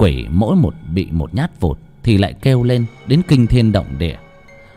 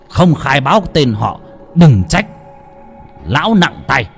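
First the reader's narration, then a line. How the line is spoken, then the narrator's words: Harsh, stern. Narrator (Vietnamese): thầy lại gằn giọng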